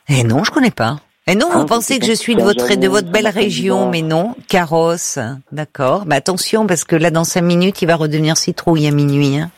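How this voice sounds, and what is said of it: Slight singsong southern French accent. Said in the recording (French): “vous retrouvez un petit accent du sud ... Il y a une petite pointe, voilà, d'accent du sud, un peu chantant”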